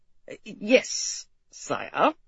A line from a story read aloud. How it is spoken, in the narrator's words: the Duke said tightly